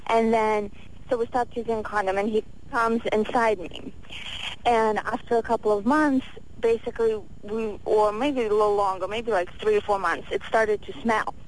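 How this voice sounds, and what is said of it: Russian accent. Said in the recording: “where is your accent from? ... Russia.”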